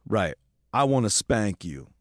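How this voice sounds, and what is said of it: Put-on male voice. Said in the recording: “You did the guy voice really well, too.”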